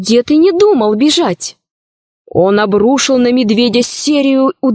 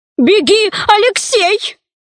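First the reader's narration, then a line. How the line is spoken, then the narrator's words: Grandmother shouting. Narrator (Russian): Бабушка закричала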